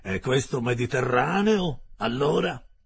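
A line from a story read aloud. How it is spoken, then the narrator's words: Mocking tone. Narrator (Italian): mi disse in tono canzonatorio il canadese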